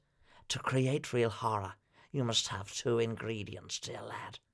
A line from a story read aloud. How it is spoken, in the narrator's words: whispered